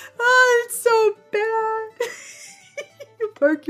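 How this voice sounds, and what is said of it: Usual voice. Nothing is said of it.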